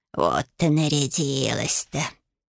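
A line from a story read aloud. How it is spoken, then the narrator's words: Grumbling. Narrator (Russian): ворчал Лютик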